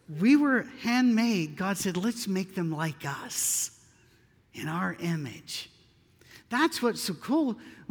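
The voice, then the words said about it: Tennessee Southern accent. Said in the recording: “Tennessee accent”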